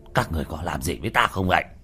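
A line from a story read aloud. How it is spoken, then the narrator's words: Furious shout. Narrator (Vietnamese): Hoa Thanh dựng râu trợn mắt quát lên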